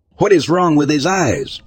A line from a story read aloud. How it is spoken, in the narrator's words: I said frantically, considering I was more than likely going to die